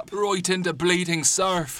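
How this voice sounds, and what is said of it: Mixed Irish and Cockney accent. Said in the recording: “His accent is now a strange mix between his previous Irish accent and Billy's Cockney slur.”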